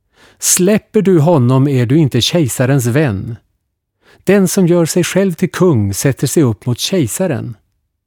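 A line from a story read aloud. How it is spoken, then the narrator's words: Crowd shouting. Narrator (Swedish): judarna skrek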